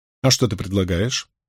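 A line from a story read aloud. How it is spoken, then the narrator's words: Calm question. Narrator (Russian): спокойно спросила Найниф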